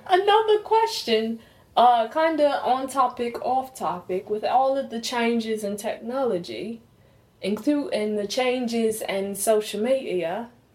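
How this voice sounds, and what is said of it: Put-on accent. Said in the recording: “I don't want to lose my accent again.”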